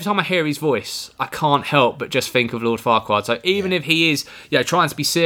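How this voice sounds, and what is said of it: Usual voice. Nothing is said of it.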